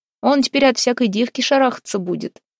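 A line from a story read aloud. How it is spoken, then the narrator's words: Giggling after ghostly caress. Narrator (Russian): хихикнул Харапун, после того, как его покойница белой ручкой приласкала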